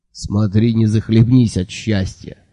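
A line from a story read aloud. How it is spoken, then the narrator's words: Good-natured grumble. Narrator (Russian): добродушно проворчал Джуфин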